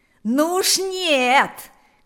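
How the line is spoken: Loudest shouting. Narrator (Russian): кричал громче всех Панас

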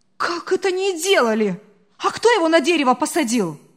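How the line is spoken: Indignant woman. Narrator (Russian): Возмущенно продолжала хозяйка

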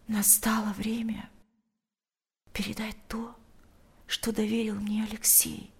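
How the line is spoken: Whisper into ear. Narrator (Russian): прошептала она ему на ухо

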